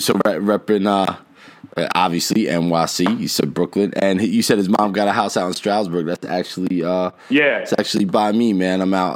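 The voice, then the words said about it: New Jersey accent. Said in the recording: “You could probably tell by the accent I'm a Jersey boy originally”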